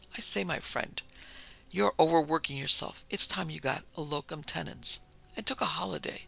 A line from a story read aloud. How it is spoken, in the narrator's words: burst into a hearty laugh, he exclaimed